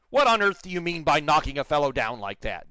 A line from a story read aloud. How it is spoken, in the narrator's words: demanded angrily